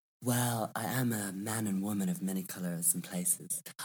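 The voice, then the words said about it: Mixed American, Australian and English accent. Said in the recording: “your accent, in the little bit of time I've been talking to you, I've picked up on an American accent, an Australian accent, and obviously an English accent. And it's a mix of everything.”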